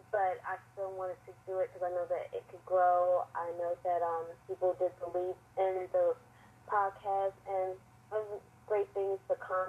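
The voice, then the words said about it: Voice affected by a cold. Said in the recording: “I have a little cold right now”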